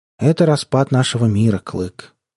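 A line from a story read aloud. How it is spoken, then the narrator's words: Unexpectedly sad. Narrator (Russian): неожиданно грустно ответил он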